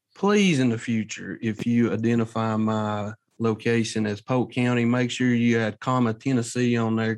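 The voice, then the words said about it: Tennessee regional American accent. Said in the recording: “You figure out what state by his accent.”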